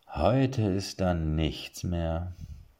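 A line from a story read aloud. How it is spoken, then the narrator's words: Sighing. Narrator (German): seufzte er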